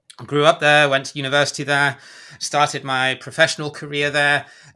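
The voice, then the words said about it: British accent. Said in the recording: “as you can probably tell from the accent, I'm originally from the UK”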